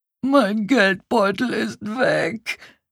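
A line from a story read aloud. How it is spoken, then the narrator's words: Despairing wail. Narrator (German): jammerte er verzweifelt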